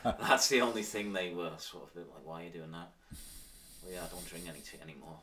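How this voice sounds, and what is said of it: Manx accent. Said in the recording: “your Manx accent”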